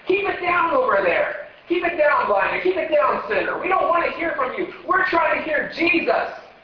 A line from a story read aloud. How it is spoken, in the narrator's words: They were yelling